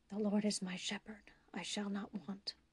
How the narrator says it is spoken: whisper

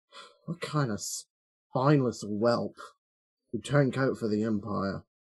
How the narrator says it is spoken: mutters to himself

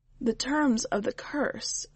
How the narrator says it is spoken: the witch said gently

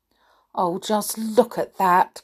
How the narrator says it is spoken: groaned Tom

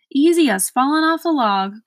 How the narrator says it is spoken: cried the Earl

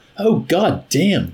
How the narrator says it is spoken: Ysarion exclaimed bitterly

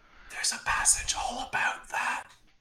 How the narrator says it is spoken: gonna whisper to Zara

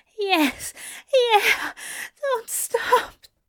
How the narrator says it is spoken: he gasped

